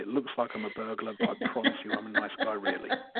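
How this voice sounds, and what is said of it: Fancy-sounding accent. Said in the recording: “Sounds so fancy with an accent.”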